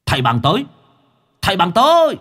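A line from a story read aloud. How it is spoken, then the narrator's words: Sudden shout. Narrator (Vietnamese): Đột nhiên có cái tiếng hét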